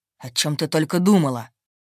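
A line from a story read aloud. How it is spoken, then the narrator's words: Growled. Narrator (Russian): Рыкнул он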